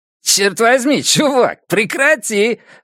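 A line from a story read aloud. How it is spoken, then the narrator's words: Laughing exclamation. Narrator (Russian): воскликнул МДжей, все еще смеясь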